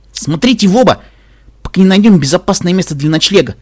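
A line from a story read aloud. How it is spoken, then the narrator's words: Shouting over rain. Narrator (Russian): прокричал Каламити сквозь шум дождя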